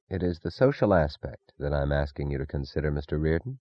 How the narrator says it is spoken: the man said softly

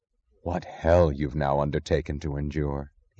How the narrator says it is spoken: he said, his voice low

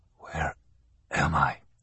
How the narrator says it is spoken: Kelly asked in a raspy voice

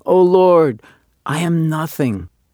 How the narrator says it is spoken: the janitor of the synagogue, deeply moved himself, was heard to exclaim

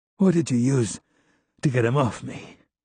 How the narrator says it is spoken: My voice sounded rough and wheezy

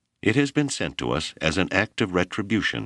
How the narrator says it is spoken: she said firmly

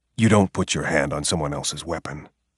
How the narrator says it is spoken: he said

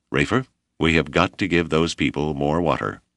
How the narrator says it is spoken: Whipple said flatly

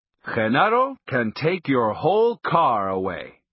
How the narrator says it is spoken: Don Juan exclaimed in a booming voice

